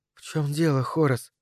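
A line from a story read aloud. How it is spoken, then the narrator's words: Whispered. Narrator (Russian): прошептала она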